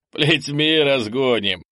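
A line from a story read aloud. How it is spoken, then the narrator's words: Short laugh. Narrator (Russian): хохотнул Олдосм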